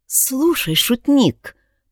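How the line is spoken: Through gritted teeth. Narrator (Russian): процедила Яна

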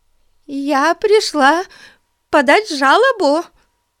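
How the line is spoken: High trembling voice. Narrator (Russian): сказала она высоким дрожащим голосом

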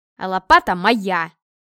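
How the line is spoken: Barked. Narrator (Russian): рявкнула я

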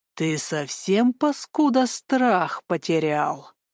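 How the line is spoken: Hissing, choking with rage. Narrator (Russian): Прошипел он, задыхаясь от гнева

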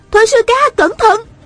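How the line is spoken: Hurried cry. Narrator (Vietnamese): An Tiểu Huệ vội kêu lên

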